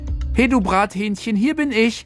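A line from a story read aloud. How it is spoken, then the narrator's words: Exuberant shout. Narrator (German): Felix rief übermütig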